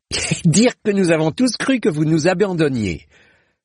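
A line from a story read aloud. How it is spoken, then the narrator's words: Exclaimed. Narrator (French): s'écria-t-il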